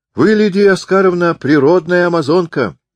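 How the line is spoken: Cheerful shout. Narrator (Russian): весело крикнул Воинов

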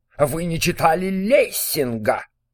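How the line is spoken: Loud shout. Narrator (Russian): громко крикнул

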